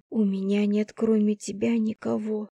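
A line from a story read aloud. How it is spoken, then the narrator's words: Whispered. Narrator (Russian): шепотом сказала я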